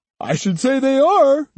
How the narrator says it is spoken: Judo said, laughing

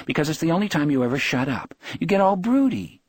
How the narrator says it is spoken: she said brightly

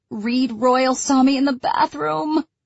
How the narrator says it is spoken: she moans through the door

